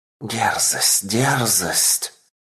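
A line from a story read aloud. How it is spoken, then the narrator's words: Sinister whisper. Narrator (Russian): зловещий шепот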